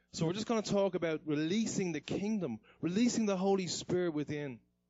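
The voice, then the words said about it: Irish accent. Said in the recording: “my accent? ... in Ireland, we don't pronounce a H or a H. So everything is like, if I say tree, I'm actually saying the number three.”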